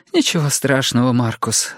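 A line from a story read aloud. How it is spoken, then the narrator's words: Gentle, kind. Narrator (Russian): ласково сказала Оливия мальчику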